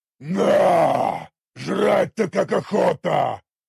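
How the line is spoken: Orc growling. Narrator (Russian): прорычал незнакомый орк

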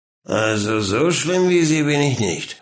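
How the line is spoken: Drunken slurred speech. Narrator (German): lallte er

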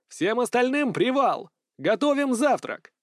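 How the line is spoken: Yelling. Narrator (Russian): заорал

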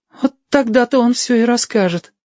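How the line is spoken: Cowering sigh. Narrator (Russian): съеженно вздохнул Бомзик

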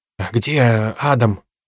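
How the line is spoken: Whispered question. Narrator (Russian): шепотом спросил Генри

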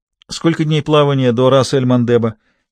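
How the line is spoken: Plain. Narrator (Russian): спросил Роже

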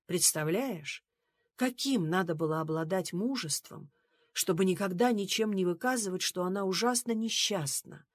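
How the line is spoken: Soft. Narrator (Russian): мягко сказал он

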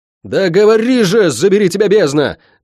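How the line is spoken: Full-voiced yell. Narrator (Russian): во весь голос заорал я

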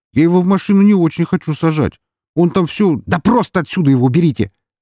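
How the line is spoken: Angry bark. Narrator (Russian): рявкнул он

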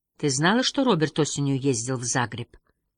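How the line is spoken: Plain. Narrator (Russian): спросил Харри

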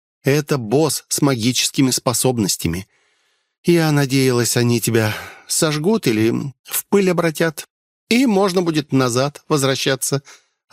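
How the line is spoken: Disappointed sigh. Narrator (Russian): она вздохнула разочарованно

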